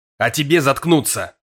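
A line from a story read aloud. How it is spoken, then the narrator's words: Barking snap. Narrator (Russian): Рявкнул я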